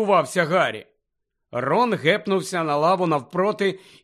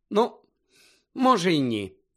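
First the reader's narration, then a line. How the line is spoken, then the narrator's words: Sighing. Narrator (Ukrainian): зітхнула вона, тому що до зали увійшов заляпаний грязюкою і роздратований Рон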